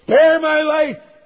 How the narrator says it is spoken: he's pleading with them

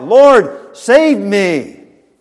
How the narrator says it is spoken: beginning to sink, he cried out

